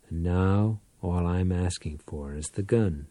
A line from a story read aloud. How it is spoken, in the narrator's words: Powell answered quietly